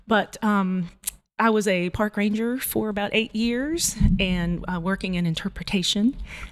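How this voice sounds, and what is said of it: North Carolina Southern accent. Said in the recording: “I am from North Carolina, so if you hear an accent, that may be why, especially as I get a little nervous, it comes out”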